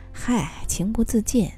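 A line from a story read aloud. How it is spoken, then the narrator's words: Embarrassed laugh. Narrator (Chinese): 大宇不好意思的笑笑，推脱一句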